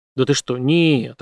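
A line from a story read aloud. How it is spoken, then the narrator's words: Plain. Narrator (Russian): ответил Брейс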